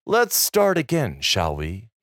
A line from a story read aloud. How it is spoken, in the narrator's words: He said calmly